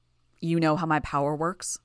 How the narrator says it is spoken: Calvert sighed

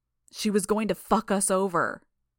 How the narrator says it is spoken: Bitch shouted

